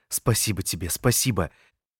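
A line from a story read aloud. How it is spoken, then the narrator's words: Muttering. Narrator (Russian): я бормотал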